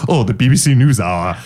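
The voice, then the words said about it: Imitates another person's voice. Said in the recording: “It was like Patrick Stewart.”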